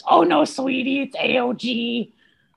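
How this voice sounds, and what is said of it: Imitates his mother's voice. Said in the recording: “This is my mom voice.”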